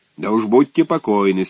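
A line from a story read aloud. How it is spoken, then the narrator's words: Stern. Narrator (Russian): строго ответил второй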